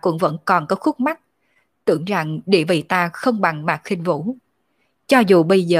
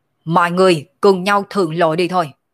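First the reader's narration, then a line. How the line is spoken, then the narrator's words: Laughing shout. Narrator (Vietnamese): Sở Dương cười ha ha, quát lên nói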